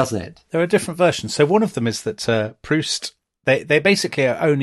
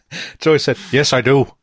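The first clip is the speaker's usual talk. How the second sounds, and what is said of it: Deliberately bad Irish accent. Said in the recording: “a terrible Irish accent ... Liam Neeson-esque”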